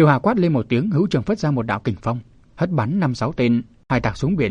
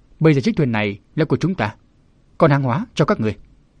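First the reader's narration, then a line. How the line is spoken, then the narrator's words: Shouting. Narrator (Vietnamese): Nàng quát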